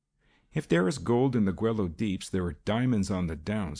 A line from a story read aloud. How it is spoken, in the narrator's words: he said scornfully